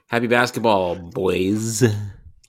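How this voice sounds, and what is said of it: Annoying middle schooler golem voice. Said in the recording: “doing a golem voice ... annoying Jewish middle schooler ... that's basically golem”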